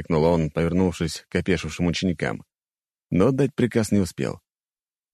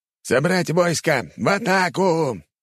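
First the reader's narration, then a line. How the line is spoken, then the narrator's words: Shouting. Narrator (Russian): прокричал лорд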